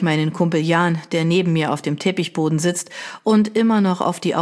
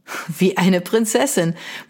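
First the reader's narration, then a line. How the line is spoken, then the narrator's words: Speaking, then bright laugh. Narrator (German): meint und lacht hell auf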